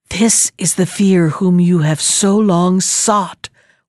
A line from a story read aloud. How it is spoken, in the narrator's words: whispered a voice, which seemed to reach his ears alone